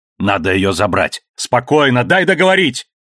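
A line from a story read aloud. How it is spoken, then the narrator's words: Barked shout. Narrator (Russian): Гаркнул в ответ Алекс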